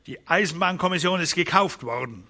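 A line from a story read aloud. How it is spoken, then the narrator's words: Sharp remark. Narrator (German): bemerkte Magnus scharf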